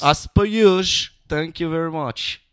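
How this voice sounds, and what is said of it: Weird put-on English accent. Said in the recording (French): “j'ai eu un accent weird à la fin.”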